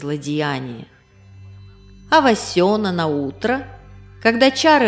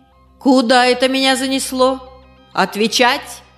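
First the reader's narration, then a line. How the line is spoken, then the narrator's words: Barking, imitating village elder. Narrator (Russian): гаркнула, подражая старости деревни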